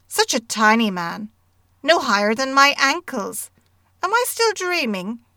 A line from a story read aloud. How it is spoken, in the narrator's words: he exclaimed